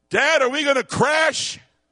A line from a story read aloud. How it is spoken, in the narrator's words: he says very, very loudly